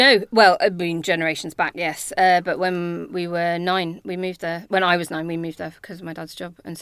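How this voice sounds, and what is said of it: Usual voice. Nothing is said of it.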